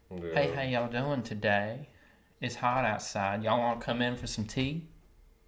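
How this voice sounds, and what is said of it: Soft smooth Low Country South Carolina accent. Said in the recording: “it's kind of a softer tone. It's kind of a softer, more smooth kind of tone ... that's kind of the low country accent. Like it's definitely the low country, South Carolina accent.”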